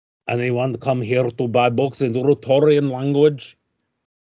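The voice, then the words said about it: Put-on foreign accent. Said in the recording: “That's how Rutorian accents are. ... That is an excellent accent.”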